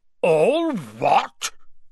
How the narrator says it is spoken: Hagrid thundered

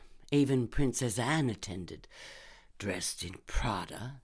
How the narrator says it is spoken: Lindy muttered

